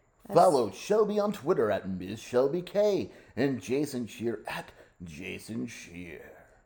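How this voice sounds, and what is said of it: Radio announcer voice. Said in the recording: “Are you practicing a radio voice?”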